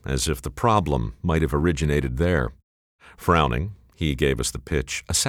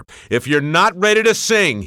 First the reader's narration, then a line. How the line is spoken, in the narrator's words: he bellowed